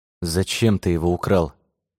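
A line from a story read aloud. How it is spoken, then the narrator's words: Plain. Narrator (Russian): спросил Роман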